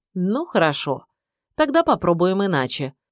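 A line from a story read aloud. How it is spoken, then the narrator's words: Usual kindly voice. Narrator (Russian): промолвил он своим обычным благожелательным голосом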